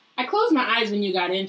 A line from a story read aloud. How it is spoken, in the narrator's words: said